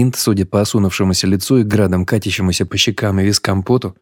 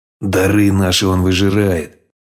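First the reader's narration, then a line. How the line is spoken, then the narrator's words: Through gritted teeth. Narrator (Russian): Процедил сквозь зубы батя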